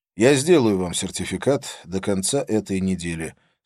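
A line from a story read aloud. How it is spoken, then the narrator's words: Plain. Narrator (Russian): сказал я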